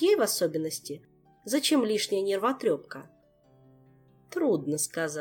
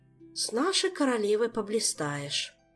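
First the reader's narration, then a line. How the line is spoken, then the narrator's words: Heavy sigh. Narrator (Russian): тяжко вздохнула маркиза Ванчир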